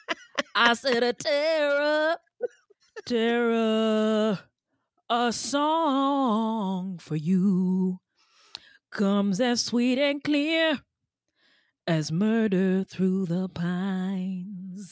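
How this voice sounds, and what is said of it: Singing imitating a famous singer. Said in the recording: “my Ray Charles impression”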